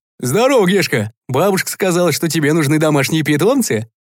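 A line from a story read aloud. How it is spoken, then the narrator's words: Cheerful booming bass. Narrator (Russian): Весело загрохотал дядя Лёша своим басом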